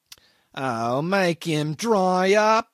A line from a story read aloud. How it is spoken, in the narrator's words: whined the accident case irritably